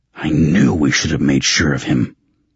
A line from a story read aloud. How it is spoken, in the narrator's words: Raven growled